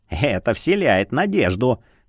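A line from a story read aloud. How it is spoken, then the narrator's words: Smirking snort. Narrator (Russian): хмыкнул Марий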